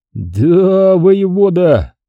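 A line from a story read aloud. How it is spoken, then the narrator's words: Drawn-out reply. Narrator (Russian): протянул Вингольд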